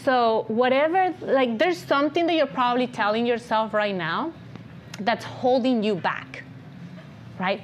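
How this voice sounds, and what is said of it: Speaks English with an accent. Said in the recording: “I'm making videos all in English with my accent and everything ... I took an accent reduction class ... oh, I have an accent”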